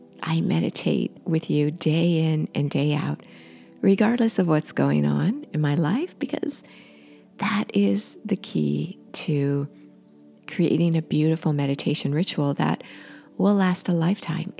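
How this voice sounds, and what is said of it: Slightly hoarse voice. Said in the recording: “I have a major cold and it's lingering. So you can hear my voice is a little hoarse”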